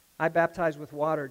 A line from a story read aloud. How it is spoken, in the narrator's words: John answered them